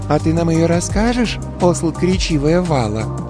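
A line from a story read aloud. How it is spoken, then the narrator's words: Sugary question. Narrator (Russian): Елейным голоском спросила черненькая невысокая Сьевн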